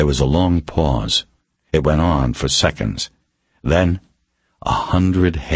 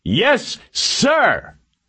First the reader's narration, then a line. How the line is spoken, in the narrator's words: 100 voices yelled